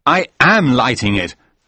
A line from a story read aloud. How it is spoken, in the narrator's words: I said angrily